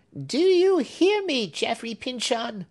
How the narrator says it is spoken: screamed Hepzibah

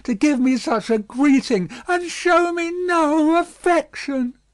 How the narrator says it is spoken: cried Miss Pross

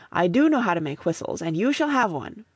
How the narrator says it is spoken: I answered hastily

